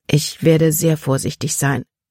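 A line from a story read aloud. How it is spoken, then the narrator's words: Plain. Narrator (German): sagte sie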